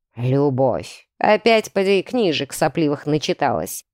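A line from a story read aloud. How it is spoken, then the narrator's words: Father's scornful snort. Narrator (Russian): хмыкнул отец безо всякого снисхождения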